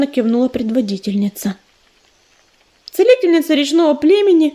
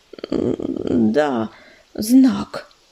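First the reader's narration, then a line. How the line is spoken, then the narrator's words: Timid tiny babble. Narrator (Russian): пролепетала мотылинка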